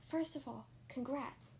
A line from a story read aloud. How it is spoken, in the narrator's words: he whispered in my ear